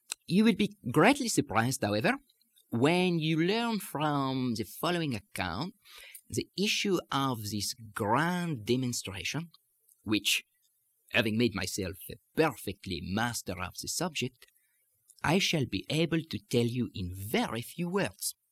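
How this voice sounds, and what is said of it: Put-on French accent. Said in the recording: “read this in simple connected French without doing any messing around with it. French accent, of course, not French language.”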